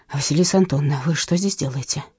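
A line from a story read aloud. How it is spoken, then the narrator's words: Low-voiced question. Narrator (Russian): спросил он вполголоса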